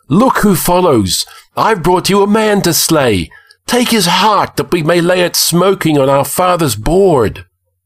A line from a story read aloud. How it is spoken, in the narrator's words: cried the girl